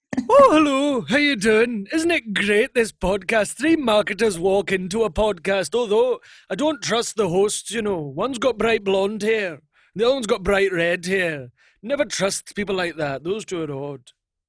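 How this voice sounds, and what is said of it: Impression of Billy Connolly. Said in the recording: “Donald Trump doing an impression of Billy Connolly”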